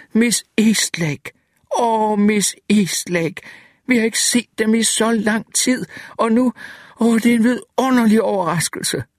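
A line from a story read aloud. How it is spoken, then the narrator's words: Excited exclaiming. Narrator (Danish): Rosenblatt knælede ved kørestolen, så hans knoklede knæ sagde knæk som startpistoler og udbrød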